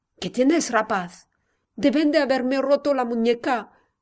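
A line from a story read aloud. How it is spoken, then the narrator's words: Weak pained groan. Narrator (Spanish): gimió Javier, casi exánime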